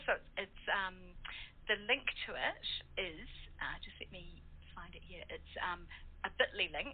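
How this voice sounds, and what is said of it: New Zealand accent. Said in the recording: “like my New Zealand accent ... I'll just stick with my Kiwi accent”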